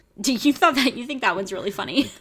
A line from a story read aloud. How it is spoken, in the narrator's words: I chuckled